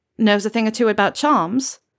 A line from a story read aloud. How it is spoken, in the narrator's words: Acacia snorts